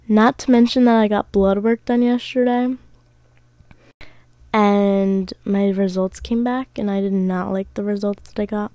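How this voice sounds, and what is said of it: Tired, sick-sounding voice. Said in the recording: “I'm a little tired right now ... I have mono. So that's why I sound sick.”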